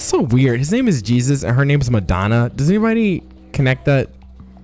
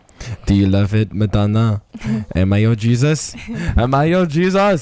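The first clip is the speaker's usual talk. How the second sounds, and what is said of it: Put-on Brazilian accent. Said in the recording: “his stupid Brazilian accent”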